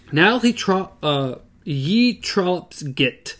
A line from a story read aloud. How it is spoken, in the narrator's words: she cries shrilly, crackling